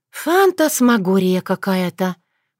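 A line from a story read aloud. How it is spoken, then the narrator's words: Sighing. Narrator (Russian): вздохнула Татьяна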